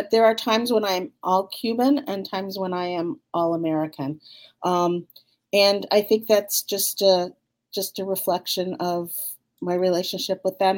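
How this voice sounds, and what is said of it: American accent. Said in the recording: “you sound so American, right? You clearly have the American accent.”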